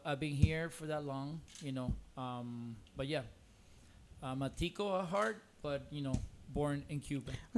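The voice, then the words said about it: Strong Cuban accent in English. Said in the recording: “once you open up your mouth, it's Cuban ... In English, it's cuanazo”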